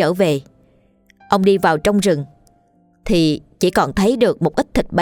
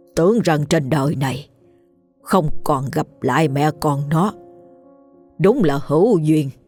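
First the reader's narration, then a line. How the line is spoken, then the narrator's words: Old man continuing after pause. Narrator (Vietnamese): Ông lão dừng lại một chút nói tiếp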